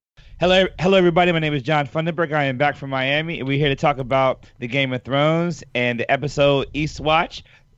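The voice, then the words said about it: Slightly hoarse voice. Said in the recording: “Little uh, voice is a little hoarse,”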